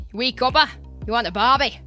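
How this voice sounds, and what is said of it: Weak attempted Australian accent. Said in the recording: “I can't do Australian accent, I'm sorry... That was weird.”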